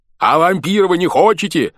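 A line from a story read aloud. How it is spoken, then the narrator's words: Yelling from aboard. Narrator (Russian): орал с борта Чугайло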